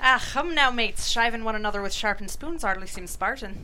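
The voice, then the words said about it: Lyrical Irish accent. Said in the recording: “a lyrical Irish accent ... Aforementioned lyrical accent.”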